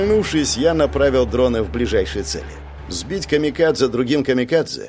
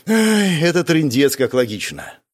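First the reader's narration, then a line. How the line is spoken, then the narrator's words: Breathless exhale. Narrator (Russian): выдохнул я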